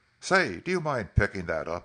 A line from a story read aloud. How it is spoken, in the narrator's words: he exclaimed